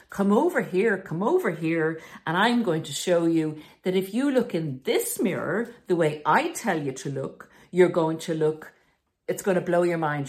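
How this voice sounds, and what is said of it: Fairground barker voice. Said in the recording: “doing a good impression of a fairground person who's bringing you into the distorted mirror”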